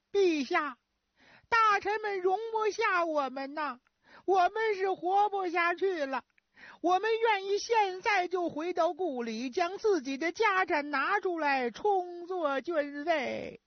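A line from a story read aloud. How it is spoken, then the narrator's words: Frightened loud wailing. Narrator (Chinese): 十常侍非常害怕，放声大哭说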